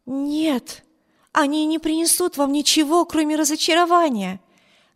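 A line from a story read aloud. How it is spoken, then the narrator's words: Exclamation. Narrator (Russian): воскликнула мисс Тревор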